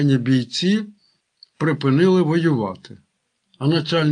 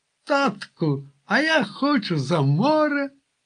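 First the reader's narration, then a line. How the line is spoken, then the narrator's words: Joyful child's voice. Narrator (Ukrainian): радісно поділився менший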